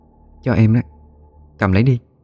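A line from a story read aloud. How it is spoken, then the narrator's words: Soft. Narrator (Vietnamese): khẽ nói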